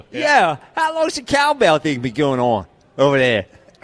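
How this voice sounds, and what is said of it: Local Philly accent, hoagie mouth. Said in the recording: “Zach Berman I don't think of as having hoagie mouth and a local accent, but he has a little bit there ... That was a little town. That was like a North Jersey.”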